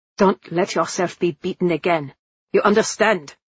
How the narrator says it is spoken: says roughly

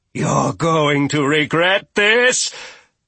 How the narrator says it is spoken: Grinda growled

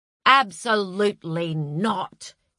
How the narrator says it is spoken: he said in his pompous schoolteacher voice

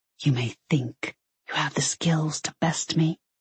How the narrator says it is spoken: he whispered

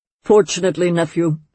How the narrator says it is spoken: he said quickly

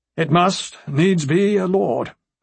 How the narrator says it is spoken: he concluded gloomily

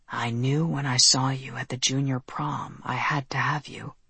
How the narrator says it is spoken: he whispered

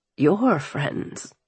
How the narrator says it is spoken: he said hoarsely

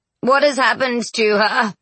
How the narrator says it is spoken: He moaned

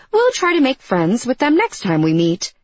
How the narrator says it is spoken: I said as happily and as helpfully as I could

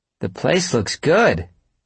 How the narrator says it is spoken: she called out

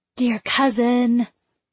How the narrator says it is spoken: she whispered

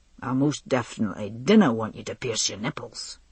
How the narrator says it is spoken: he said firmly

